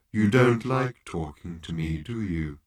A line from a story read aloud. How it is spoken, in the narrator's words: said Marvin in a low, desolate tone